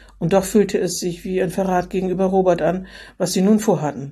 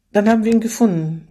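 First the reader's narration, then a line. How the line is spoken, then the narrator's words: Sighing. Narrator (German): vollendete mit einem Seufzer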